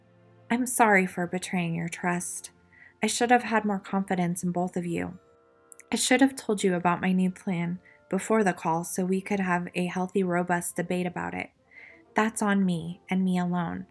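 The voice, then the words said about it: Soft, gentle voice. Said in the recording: “in a soft voice,”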